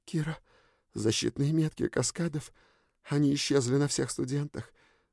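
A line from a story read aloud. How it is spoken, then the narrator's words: Whispering. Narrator (Russian): зашептала она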